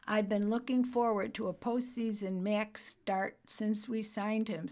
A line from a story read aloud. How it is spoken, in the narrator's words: said Schneider